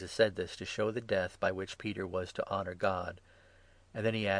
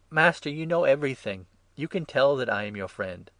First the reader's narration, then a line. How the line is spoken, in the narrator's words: exclaimed